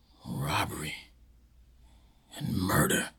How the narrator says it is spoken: whispered slowly to himself

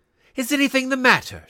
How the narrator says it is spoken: she said breathlessly

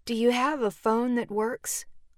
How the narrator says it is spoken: asked

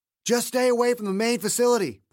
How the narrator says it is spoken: Paul shouted to the co-pilot

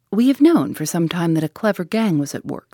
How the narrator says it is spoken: said the inspector

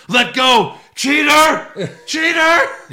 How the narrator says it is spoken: KO grabbed the ropes and yells

